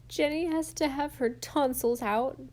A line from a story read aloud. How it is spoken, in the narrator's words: sobbed Di